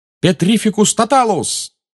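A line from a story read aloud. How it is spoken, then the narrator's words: Shouted. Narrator (Russian): выкрикнул Гарри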